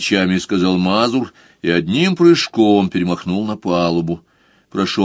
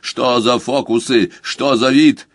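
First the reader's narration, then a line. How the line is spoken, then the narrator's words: Barked. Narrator (Russian): Хольц рявкнул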